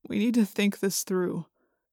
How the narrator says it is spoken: Jake said wearily

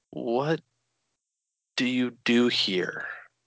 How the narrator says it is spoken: Ava sighed

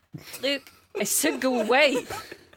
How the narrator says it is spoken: he snapped

